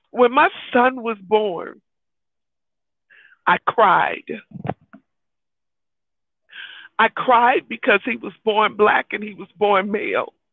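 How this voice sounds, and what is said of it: Emotional, tearful voice. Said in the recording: “I'm getting emotional.”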